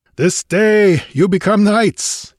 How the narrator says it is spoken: he laughed fiercely

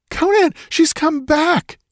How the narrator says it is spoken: The shriek ended in a gurgle

